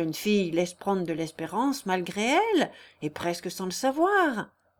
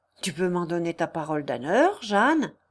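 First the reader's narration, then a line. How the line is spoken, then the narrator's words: Moved exclamation. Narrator (French): s'écria Léon tout ému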